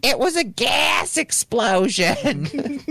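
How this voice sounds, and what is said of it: Thick Philadelphia accent. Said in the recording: “like with a really thick Philly accent”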